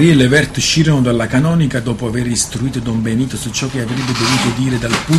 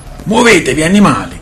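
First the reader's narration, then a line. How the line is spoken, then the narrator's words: Shouting. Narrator (Italian): gridava Re Texar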